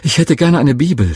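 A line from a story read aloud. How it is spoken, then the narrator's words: Excited stammering. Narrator (German): stotterte ich ganz aufgeregt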